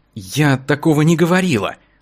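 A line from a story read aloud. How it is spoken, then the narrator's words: Timid objection. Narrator (Russian): робко возразила Вероника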